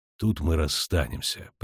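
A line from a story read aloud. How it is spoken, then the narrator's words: Gentle interruption. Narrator (Russian): прервал он ее ласково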